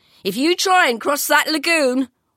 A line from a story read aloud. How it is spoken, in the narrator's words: one man shouted at us mockingly